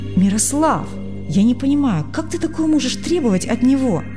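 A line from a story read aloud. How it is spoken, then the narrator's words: Young man exclaiming. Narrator (Russian): воскликнул молодой врач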